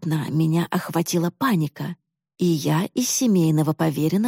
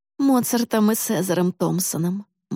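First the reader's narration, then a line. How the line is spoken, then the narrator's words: Gloomy mother prompting. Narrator (Russian): мрачно подсказала мама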